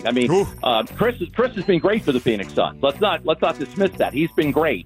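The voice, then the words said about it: New York-sounding accent. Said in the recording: “That's not New York Sports Radio, despite the accent”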